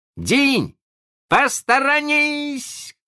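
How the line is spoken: Shouting. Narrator (Russian): крикнул он

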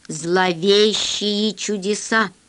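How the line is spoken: Plain. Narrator (Russian): сказал Зеленый

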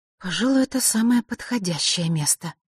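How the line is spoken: Muttered. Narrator (Russian): пробормотала Василиса

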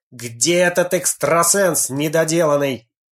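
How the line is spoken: Furious yell. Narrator (Russian): Конан в бешенстве заорал

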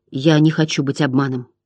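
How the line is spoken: Mutter. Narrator (Russian): пробормотал Атрей

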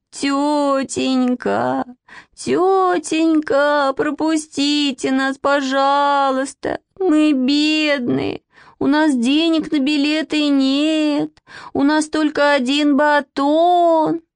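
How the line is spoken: Loud plaintive whimpering. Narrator (Russian): Манечка очень громко и жалобно захныкала

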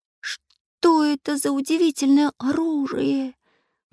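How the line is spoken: Exclamation. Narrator (Russian): воскликнул Чижик

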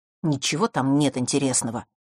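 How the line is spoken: Grumbled. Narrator (Russian): пробурчал Фэш

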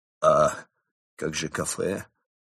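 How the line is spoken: Dejected question. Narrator (Russian): уныло спросил крот, догадываясь, что кафе уже никак

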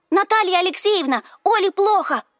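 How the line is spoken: Loud startling yell. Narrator (Russian): заорала Ира так, что я вздрогнула

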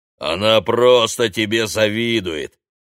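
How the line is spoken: Booming drone. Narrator (Russian): прогудел голос оператора Прохора

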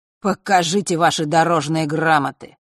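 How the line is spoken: Harsh croaking voice. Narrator (Russian): каркнул ушастый неприятным голосом

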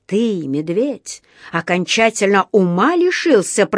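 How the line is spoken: Hissed. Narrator (Russian): прошипел он

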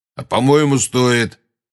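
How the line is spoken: Grumbled. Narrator (Russian): проворчал Грюм

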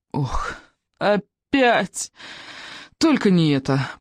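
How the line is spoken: Groaning with pinched noses. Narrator (Russian): простонали Икинг с рыбьеногом, зажав носы

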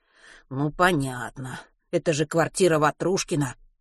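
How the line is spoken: Grumbling. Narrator (Russian): проворчал Матвей

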